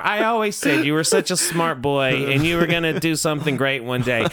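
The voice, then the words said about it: Imitates another person's voice. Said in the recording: “That's my impression of your mother. ... she tends to sound a little more confused.”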